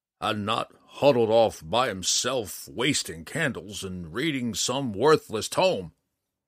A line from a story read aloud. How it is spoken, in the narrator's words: Matthias growled